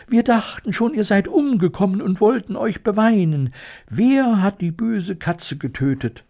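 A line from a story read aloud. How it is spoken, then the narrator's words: Squeaky overlapping voices. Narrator (German): piepsten sie durcheinander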